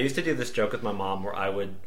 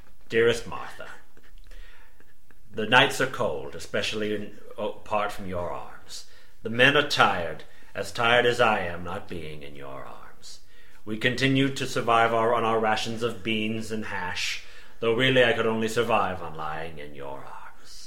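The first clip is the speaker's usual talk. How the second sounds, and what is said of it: Christopher Plummer impression, Civil War monologue. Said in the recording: “I would do a Christopher Plummer impression and then just go into like a Ken Burns Civil War monologue”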